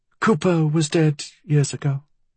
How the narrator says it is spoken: she said in a flat voice

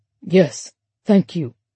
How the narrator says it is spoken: Thomas grunted in French, trying to imitate a French accent and hoping that his brevity would conceal the British edge to his words

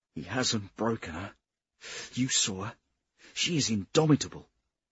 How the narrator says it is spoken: He said with choked pride

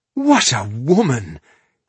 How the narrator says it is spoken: he exclaimed in admiration

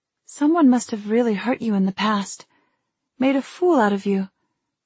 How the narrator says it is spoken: I said in a sympathetic tone

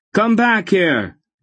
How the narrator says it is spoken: Geryon shouted at him

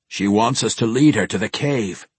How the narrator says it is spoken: Brunner grumbled

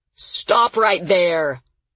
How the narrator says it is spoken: Victor shouted

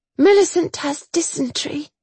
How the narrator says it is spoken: Chase groaned

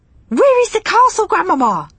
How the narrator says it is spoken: I cried impatiently

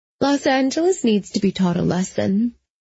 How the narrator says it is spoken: she said calmly

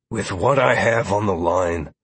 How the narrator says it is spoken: Lazarus replied wearily

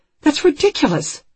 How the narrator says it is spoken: Anne says, her voice rising

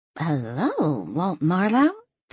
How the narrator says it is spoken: Thelma asked in a flirtatious tone

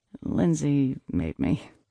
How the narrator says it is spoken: I mumbled

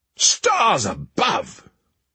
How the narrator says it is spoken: cried the prince

